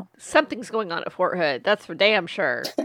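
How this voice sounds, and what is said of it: Put-on Texan accent. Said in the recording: “I sounded really Texan right there.”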